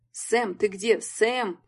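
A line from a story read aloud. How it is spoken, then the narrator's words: Shouted. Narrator (Russian): кричал Марк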